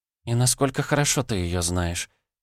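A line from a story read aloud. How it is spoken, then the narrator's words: Quiet, embarrassed question. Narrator (Russian): тихо спросила Вильда, покрываясь румянцем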